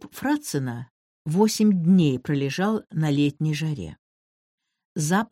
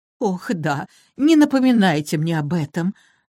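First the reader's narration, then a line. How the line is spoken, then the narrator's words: Booming, holding back sobs. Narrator (Russian): Громогласно воскликнула Мот, подавляя рыдание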